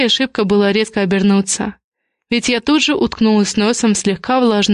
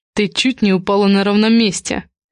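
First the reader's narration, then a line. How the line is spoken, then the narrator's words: Snort, then quick addition. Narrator (Russian): хмыкнул и сразу добавил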